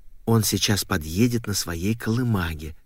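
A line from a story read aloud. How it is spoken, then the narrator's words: Mother's whisper. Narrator (Russian): шепнула мама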